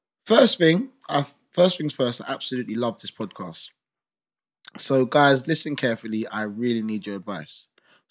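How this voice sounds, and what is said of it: Reading aloud very fast. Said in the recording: “try to read it fast ... I'll try my best to read it fast.”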